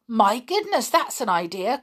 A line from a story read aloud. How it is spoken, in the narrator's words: cried Binky, in excitement